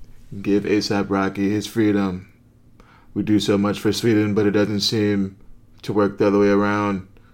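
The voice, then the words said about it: Imitates another person's voice. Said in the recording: “my best Donald Trump impersonation.”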